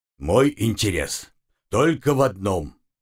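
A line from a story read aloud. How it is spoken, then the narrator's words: Growled. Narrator (Russian): рыкнул Умрун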